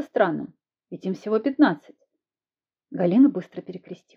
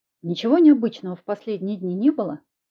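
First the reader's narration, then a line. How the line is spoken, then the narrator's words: Plain. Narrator (Russian): спросила я Галину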